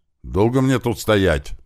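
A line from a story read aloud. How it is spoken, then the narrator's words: Shouted. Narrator (Russian): прокричал нам Слива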